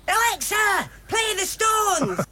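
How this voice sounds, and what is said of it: Put-on Yorkshire accent. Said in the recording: “a Scottish accent? ... I think it was Yorkshire ... It's Kerry's mum”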